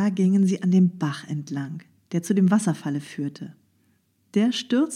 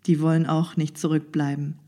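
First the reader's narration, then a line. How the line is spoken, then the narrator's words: Plain. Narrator (German): sagte die Trude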